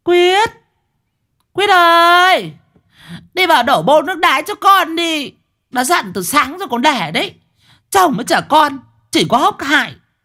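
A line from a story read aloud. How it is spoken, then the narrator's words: Roaring shout. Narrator (Vietnamese): có tiếng con sư tử nó rú lên ở trong nhà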